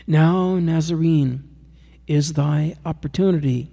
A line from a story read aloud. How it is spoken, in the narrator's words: cried Diocletian